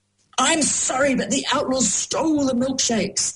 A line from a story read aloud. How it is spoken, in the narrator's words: thundered the man